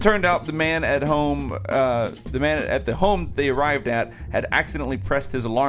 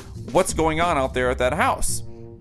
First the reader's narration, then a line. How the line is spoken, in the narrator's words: said in a worried voice